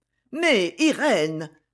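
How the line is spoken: Displeased exclamation. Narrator (French): s'écria la comtesse d'un ton mécontent

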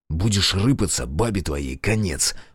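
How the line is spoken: Male voice hissing in ear. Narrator (Russian): прошипел мне в ухо мужской голос

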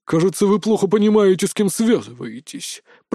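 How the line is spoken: Said through teeth. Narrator (Russian): процедил Тимофей, вонзая в меня злобный взгляд

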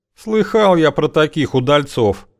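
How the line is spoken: Gloomy statement. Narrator (Russian): мрачно сообщил светляк

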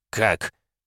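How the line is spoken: Stammering mutter. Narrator (Russian): Заикаясь, пробормотал он

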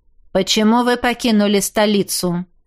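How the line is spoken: Dry inquiry. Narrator (Russian): сухо осведомился его светлость

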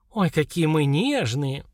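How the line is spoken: Indignant snort. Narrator (Russian): Наташа возмущенно фыркнула

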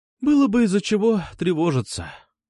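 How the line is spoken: Sighed. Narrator (Russian): вздохнула она

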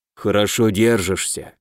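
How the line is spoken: Whisper. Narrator (Russian): шепнул мне Дан

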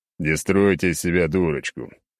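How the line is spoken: Smirking. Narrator (Russian): хмыкнул я

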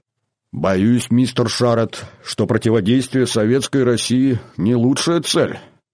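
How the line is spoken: Grumbling. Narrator (Russian): проворчал Дэвид

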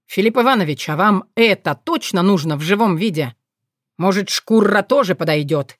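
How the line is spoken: Growl. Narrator (Russian): рыкнул вран

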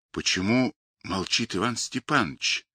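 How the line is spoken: Quiet question. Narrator (Russian): тихо спросил Горелов

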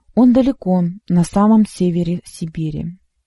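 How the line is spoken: Calm female reply. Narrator (Russian): ответила она спокойно

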